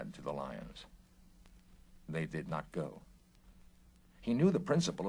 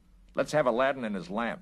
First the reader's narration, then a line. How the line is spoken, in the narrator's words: snapped